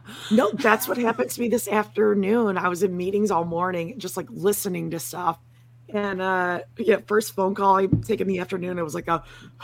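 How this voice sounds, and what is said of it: Hoarse, weak voice. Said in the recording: “My voice is just weirdly gone.”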